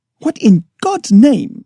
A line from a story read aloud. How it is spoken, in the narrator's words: I cried